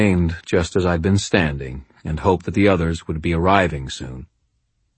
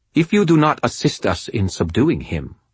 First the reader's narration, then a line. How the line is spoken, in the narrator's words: Mai said, her voice crisp and thrumming with tension